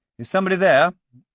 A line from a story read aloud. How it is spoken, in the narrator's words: I called out